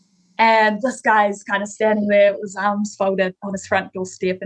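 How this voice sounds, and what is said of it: New Zealand accent. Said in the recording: “your Kiwi accent”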